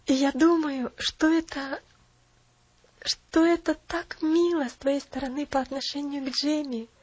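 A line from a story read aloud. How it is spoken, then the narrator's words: Exclamation. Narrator (Russian): опять воскликнула миссис Керри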